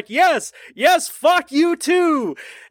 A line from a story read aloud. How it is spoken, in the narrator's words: happily shouts back